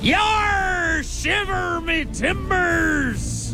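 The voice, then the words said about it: Exaggerated pirate voice. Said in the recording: “Talk Like a Pirate ... pirate mode ... thanks for interrupting my pirate”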